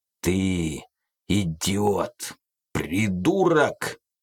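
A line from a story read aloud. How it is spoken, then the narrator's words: Angry growl. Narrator (Russian): прорычал Карнап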